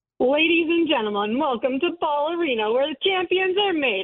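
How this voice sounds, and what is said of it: Sports arena announcer voice. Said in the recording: “give us your best Nuggets announcer voice”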